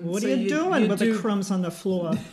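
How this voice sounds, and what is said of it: Put-on New York accent. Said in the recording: “doing a New York accent”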